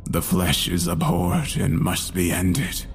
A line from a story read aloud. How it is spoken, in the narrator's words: mumble